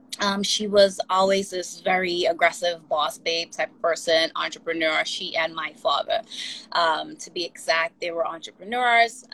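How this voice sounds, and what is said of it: Trinidadian accent. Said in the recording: “I don't know if you hear an accent or not. I was born in ... Trinidad. I'm an island girl.”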